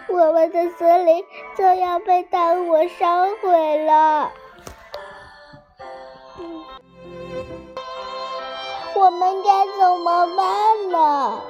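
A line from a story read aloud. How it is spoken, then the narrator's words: Crying. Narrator (Chinese): 彩虹鱼，柳儿哭着说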